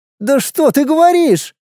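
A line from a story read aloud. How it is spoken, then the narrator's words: Exclaimed. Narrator (Russian): воскликнула Александра Федоровна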